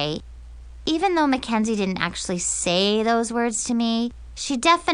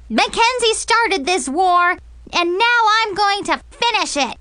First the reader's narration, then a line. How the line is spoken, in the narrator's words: I just totally lost it and screamed at the top of my lungs